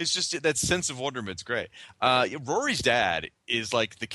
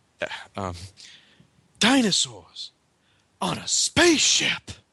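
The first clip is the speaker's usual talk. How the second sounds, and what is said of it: Character voice full of wonderment. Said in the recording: “that awesome impression you did of the doctor of this episode of his wonderment”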